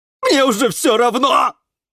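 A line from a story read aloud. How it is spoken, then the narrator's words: Yelling. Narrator (Russian): вопил Жорж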